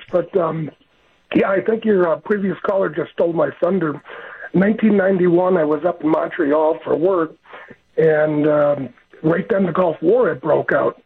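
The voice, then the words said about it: Hoarse, strained voice. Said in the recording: “Sorry about the laryngitis”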